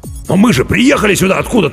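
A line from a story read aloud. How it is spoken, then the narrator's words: Barking. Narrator (Russian): рявкнул капитан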